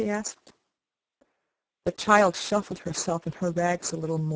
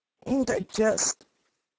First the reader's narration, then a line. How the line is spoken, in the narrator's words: she said in a hoarse voice